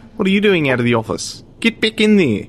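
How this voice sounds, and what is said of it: Dodgy put-on New Zealand accent. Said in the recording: “I'm going to put on a very dodgy New Zealand accent”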